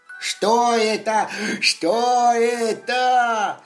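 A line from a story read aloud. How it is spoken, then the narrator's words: Joyful shout. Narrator (Russian): Радостно закричал лапа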